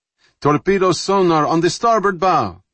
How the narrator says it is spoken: Lieutenant Rykov screamed from sonar

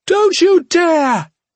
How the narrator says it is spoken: Yirsa cried out

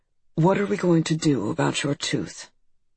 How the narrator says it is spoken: He looked at me calmly from across his desk and said

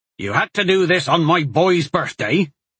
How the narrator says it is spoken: Bodrick snapped angrily to the sheriff

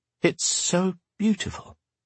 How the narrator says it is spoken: she murmured

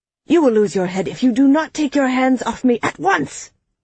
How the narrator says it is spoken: Tone shouted back

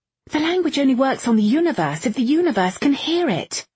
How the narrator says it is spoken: Irene snapped

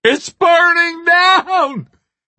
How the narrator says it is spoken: Bobby screamed

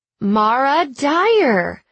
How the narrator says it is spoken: she read loudly

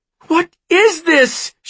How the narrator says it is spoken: She cried

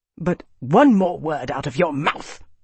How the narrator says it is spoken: Arnas spat

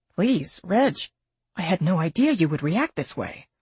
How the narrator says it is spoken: the doctor said softly

